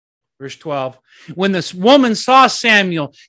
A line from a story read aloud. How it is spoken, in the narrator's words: she cried out at the top of her voice and said to Saul